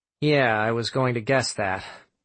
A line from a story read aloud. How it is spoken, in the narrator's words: Sam said dryly